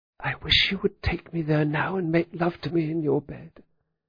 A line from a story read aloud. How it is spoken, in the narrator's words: She leaned forward and whispered